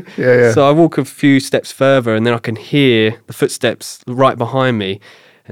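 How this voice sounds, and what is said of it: Thick British accent. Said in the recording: “my thickish British accent”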